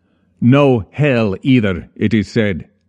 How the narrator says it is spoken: he barked

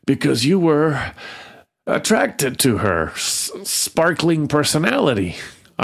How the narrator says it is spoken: wheezed

